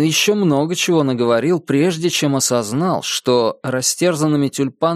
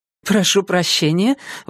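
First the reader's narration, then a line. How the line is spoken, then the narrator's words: Exclaiming. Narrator (Russian): воскликнула Мелисса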